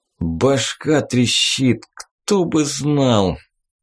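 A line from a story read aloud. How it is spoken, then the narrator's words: Suffering voice. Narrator (Russian): первые его слова, произнесенные страдальческим голосом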